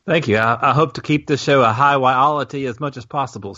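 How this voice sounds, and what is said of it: Southern US (Alabama) accent. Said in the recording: “joining us from the land of Sweet Home Alabama and Sweet Tea ... Your accent is apparently taking the Kiwis by storm”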